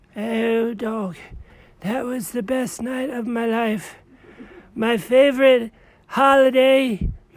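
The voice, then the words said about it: Hoarse, lost voice. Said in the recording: “I lost my voice.”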